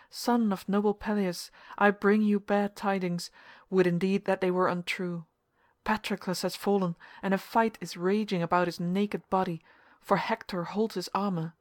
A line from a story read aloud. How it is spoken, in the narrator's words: he cried